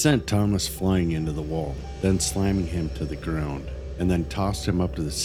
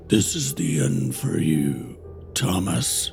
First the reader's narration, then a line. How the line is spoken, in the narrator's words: A guttural groan escaped, and in a demonic voice, she said